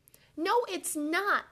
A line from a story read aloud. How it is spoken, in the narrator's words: the children cried